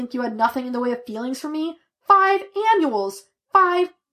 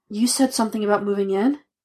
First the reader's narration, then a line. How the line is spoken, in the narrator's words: Glitch got up breathlessly